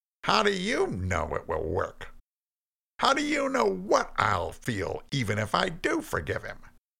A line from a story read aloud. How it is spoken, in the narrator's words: asked Cain, still in his skeptical voice